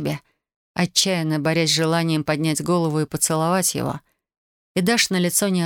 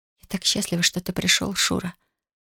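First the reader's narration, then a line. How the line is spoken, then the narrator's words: Breathless aroused whisper. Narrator (Russian): прошептала она, борясь с болезненно приятными ощущениями внизу живота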